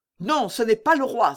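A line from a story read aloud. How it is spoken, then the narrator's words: Exclaiming. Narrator (French): s'écria le cavalier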